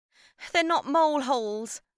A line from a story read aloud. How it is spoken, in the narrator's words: I wailed